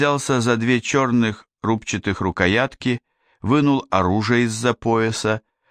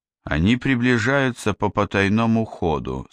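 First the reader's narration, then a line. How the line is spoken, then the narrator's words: Calm. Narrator (Russian): спокойно сказала Яна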